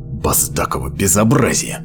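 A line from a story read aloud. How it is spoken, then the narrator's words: Muttered. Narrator (Russian): пробормотал он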